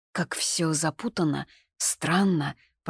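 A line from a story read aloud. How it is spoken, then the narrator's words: Mumbling. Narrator (Russian): пробормотала я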